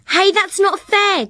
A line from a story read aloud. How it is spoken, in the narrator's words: Jessica Jolly yelled